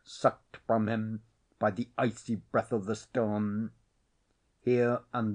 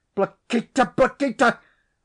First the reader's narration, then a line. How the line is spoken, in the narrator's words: I shouted, furious